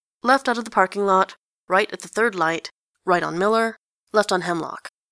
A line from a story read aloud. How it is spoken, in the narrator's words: says Enjolras